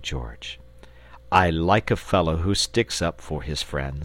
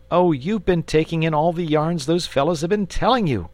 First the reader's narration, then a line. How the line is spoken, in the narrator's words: said the boy impatiently